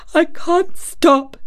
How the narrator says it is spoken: he gasped and sobbed

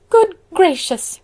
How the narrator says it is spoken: cried Mrs

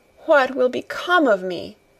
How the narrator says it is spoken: cried, and said

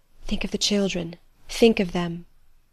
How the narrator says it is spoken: Adèle's voice whispering

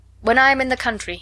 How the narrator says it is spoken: he replied

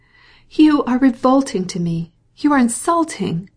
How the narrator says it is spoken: she cried, with increasing anger

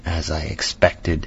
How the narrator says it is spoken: he murmured, with that hissing inspiration of his which meant so much

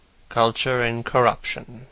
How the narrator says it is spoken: murmured Dorian

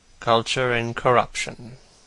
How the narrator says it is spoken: murmured Dorian

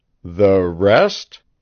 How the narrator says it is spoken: Devant asked slowly

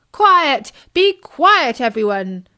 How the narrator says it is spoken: boomed Bertie

